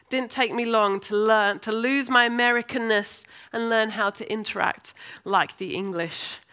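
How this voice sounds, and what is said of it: English accent, formerly American. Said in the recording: “losing my accent and my vocabulary changing almost overnight ... hence the accent I have now ... talk like the Brummies do. I'm now in London, so it's changed again”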